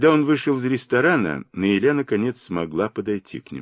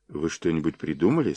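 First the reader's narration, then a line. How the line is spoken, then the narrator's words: Plain. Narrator (Russian): спросила она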